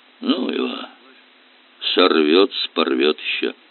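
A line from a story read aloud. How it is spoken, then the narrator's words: Muttering. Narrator (Russian): пробормотал он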